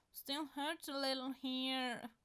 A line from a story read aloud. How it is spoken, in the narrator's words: Styles says, whining